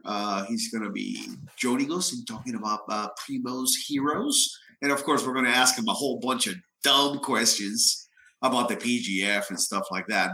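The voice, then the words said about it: Weak, partly lost sick voice. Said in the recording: “My voice is a little, you know, gone because I'm a little sick ... I apologize for my voice”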